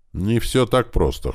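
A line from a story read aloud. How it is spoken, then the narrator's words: Snorting. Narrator (Russian): хмыкнул таксист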